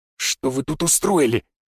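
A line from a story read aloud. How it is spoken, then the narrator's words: Stunned hiss. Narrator (Russian): прошипел он, явно ошарашенный увиденным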